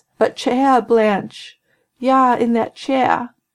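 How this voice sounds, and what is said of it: Passable New England accent impression. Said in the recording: “not the greatest New England accent, but passable”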